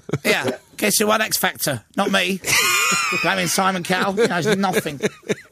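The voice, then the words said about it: Imitates another person's voice. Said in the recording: “I'm going to do an impression. ... Can do Ollie Murs. ... Ollie Murs here.”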